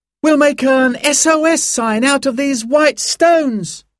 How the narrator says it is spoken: he cried

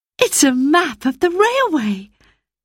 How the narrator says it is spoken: cried Roberta

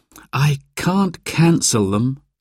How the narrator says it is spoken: sighed Mum

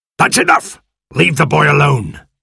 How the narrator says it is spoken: snapped Silver

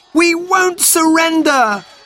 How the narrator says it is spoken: cried Robert

